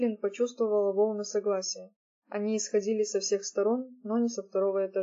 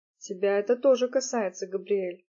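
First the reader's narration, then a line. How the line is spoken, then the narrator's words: Grim. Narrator (Russian): мрачно сказал Роб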